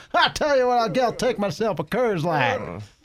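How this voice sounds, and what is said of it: Put-on Southern redneck accent. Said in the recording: “a Southern accent ... that's the default accent ... redneck”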